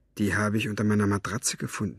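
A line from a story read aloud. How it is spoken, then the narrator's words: Whisper. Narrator (German): flüsterte er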